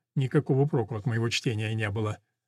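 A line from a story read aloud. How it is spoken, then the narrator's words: Embarrassed whisper. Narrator (Russian): смущенно прошептал он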